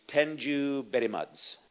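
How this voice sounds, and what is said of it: Put-on Middle Eastern accent. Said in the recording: “as they say over in the Middle East ... Good accent.”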